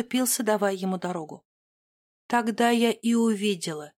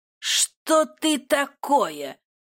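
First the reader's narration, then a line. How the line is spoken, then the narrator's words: Hateful yell. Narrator (Russian): завопил император с неприкрытой ненавистью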